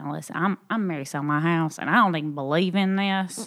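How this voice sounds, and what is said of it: Exaggerated Southern American accent. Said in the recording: “I can talk in my Southern voice even more”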